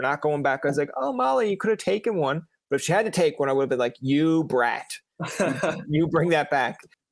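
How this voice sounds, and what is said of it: Canadian accent. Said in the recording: “you are a true Canadian ... there's a few little inflections, like when you say like out and stuff, there's a bit more of a out”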